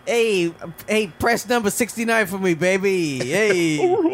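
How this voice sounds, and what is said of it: Imitates another person's voice. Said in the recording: “That's a really good impression.”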